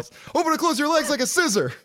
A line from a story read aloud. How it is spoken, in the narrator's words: spontaneously yells